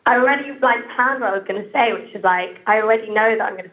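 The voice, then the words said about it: British English accent. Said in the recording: “I'm just so aware of how British my accent sounds”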